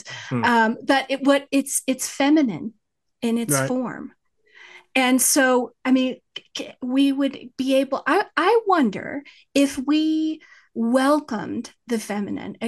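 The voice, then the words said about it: West Texas accent. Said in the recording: “horribly pronounced by my West Texas accent.”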